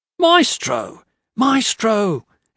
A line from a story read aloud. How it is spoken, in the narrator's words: he yelled as he came